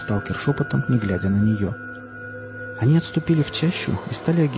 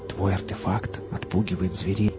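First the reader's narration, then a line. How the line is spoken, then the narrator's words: Whisper. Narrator (Russian): прошептал лесник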